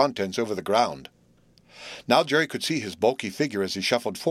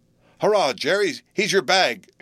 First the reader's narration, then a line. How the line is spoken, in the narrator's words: shouted, as genuinely happy as though it had been his own shot that did the business, perhaps more so